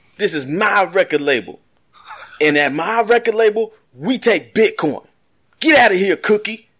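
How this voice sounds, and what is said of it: Imitates another person's voice. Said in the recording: “impersonate Terrence Howard from Empire talking about Bitcoin”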